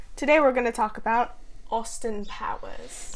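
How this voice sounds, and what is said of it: Put-on British-ish accent. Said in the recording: “I like how you did your British accent there. ... I don't even know what accent it was. ... It's probably more like Australian?”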